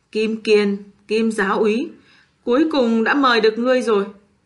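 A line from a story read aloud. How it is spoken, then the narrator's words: Cold, raspy voice. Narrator (Vietnamese): tên mặt sắt bật ra một nụ cười âm u lạnh lẽo, giọng nói khàn khàn đập thẳng vào màng tai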